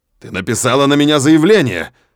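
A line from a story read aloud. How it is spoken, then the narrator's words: Impatient angry bark. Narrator (Russian): рявкнул, потеряв терпение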